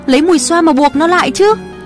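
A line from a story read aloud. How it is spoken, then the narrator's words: Shouting. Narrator (Vietnamese): ông ta hét lên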